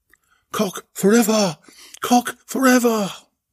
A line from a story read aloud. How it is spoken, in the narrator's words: Belinda shouted